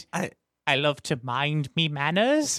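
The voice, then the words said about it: Put-on Bristol English accent. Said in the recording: “I'll see if I can do the accent right now... From Bristol, England... is that Edward accent”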